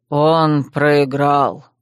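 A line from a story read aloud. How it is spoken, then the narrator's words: Grim smirking. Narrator (Russian): мрачно усмехнулся Гшан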